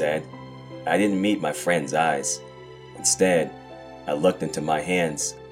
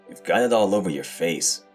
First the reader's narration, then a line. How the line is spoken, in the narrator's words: I grumbled